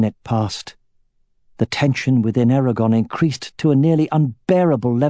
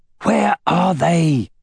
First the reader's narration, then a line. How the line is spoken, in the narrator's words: growled